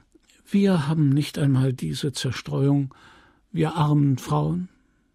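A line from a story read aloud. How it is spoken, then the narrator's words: Sighing woman. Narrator (German): seufzte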